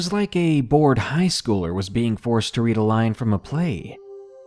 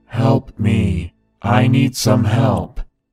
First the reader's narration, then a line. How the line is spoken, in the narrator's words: In a loud, monotone voice, he shouted to us